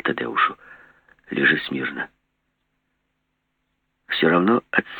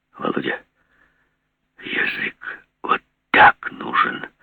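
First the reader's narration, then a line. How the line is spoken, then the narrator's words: Wheezing. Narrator (Russian): хрипел Савичев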